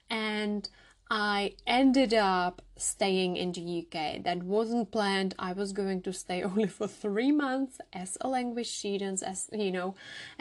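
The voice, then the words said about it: Czech accent. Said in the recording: “I am originally from the Czech Republic, as you can hear from my accent.”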